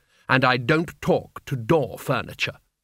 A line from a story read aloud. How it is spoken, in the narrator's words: she said haughtily, holding down the lid on her terror